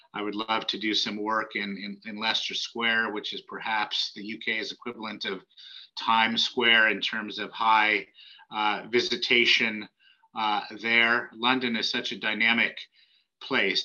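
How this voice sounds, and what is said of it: Non-British accent. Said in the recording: “Despite my accent, I do have UK citizenship.”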